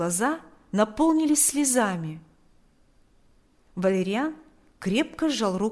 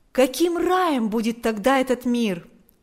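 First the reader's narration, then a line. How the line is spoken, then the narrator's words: Exclaiming. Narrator (Russian): воскликнул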